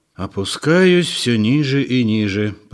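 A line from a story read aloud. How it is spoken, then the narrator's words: Grumbled. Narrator (Russian): проворчал он при этом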